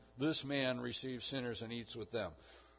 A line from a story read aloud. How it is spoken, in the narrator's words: the Pharisees and the scribes grumbled, saying